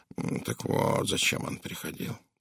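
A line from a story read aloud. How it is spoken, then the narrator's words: Grumbled. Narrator (Russian): проворчал Пуаро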